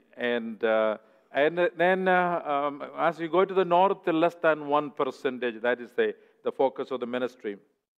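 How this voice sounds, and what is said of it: South Indian English accent. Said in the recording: “I come from the southern part of India. That's why I have a southern accent”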